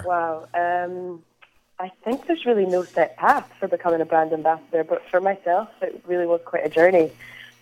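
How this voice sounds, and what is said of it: Scottish accent. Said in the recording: “you can probably tell by my accent, I am Scottish. Not Irish, as many people seem to think I am.”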